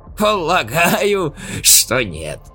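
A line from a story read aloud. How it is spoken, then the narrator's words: Laughing. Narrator (Russian): рассмеялся Симакатта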